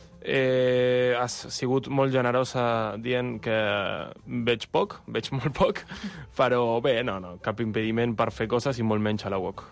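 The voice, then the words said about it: Argentine accent speaking Catalan. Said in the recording (Catalan): “tens un accent. D'on ets? ... Jo sóc d'Argentina”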